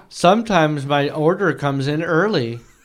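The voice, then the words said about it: Monotone old lady voice. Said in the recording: “Monotone women. People. Oh, women? ... He said old lady. ... he sounded like old lady.”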